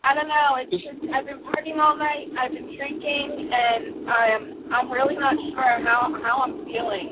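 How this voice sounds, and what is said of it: Changed, feminine-sounding voice. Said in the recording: “your voice has changed a lot. ... You sound a little feminine today”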